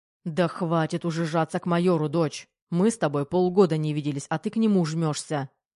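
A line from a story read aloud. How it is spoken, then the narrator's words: Barking. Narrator (Russian): рявкнул Головин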